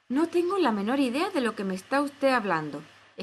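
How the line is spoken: Exclaiming. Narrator (Spanish): exclamó Alicia

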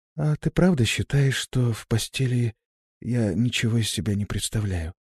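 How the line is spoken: Weak-voiced question. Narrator (Russian): Тем же слабым голосом спросила

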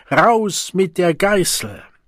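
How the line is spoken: Group roaring. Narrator (German): Eine Gruppe am Ende der Reihe brüllte es

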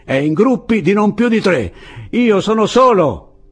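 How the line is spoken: Yelling. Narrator (Italian): urlò Andrés

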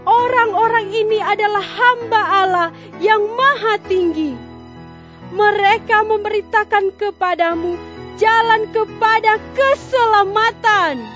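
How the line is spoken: Calling out. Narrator (Indonesian): sambil berseru, katanya

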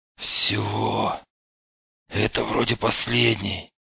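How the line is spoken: Hoarse croak. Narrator (Russian): только и смог прохрипеть он

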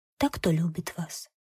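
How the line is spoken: Meek, barely audible. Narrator (Russian): та отвечала кротко, чуть слышно

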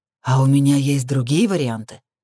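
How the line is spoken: Angry smirk. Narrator (Russian): зло усмехнулся

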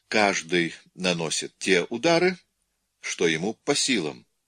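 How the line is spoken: Calm. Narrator (Russian): Она спокойно сказала

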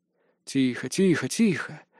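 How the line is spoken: Mutter. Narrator (Russian): пробормотал я

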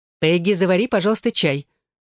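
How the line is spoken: Cold. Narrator (Russian): холодно произнесла она

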